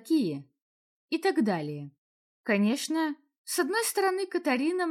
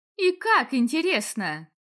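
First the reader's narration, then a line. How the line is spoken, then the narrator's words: Laughing. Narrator (Russian): Даже сама Катарина посмеялась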